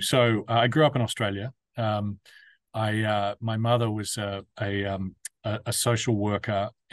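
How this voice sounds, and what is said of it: Non-New York foreign accent. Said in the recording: “your accent, that you're not from here, so to speak, meaning New York”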